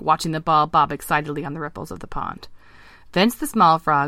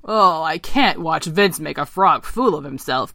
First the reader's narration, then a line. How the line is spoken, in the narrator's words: croaked Eric